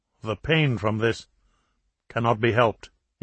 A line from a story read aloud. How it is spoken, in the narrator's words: he responded coldly